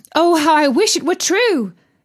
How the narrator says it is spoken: exclaimed the girl

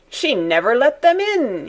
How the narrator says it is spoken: cried again through his laughter

